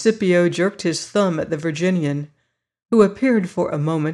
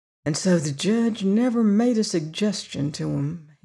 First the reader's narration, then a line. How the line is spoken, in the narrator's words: he muttered